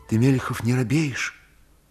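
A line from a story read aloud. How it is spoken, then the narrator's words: Whisper. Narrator (Russian): Прохор Зыков говорил шепотом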